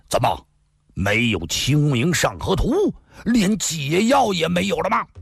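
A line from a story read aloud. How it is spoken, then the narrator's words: Loud impatient outburst. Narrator (Chinese): 裘然大汉却忍不住了，大声地说道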